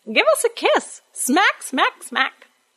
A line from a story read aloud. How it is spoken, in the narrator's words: cackling away, saying